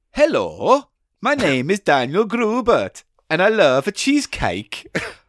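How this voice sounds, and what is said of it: Put-on unidentified accent. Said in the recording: “I don't know what this accent is, but I'm just going to go with it. ... Problem with accents.”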